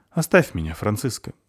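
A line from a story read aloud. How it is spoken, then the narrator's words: Sighing. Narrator (Russian): вздохнул он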